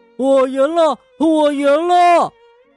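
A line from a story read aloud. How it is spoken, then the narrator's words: Loud laughing. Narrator (Chinese): 笑得特别大声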